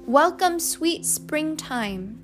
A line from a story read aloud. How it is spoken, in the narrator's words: shouted Neely